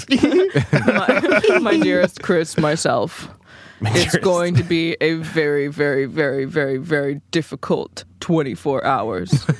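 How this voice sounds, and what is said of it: Put-on very deep voice. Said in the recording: “You have to do my voice. You can't just do Jenny voice. You got to do me. ... A very deep voice.”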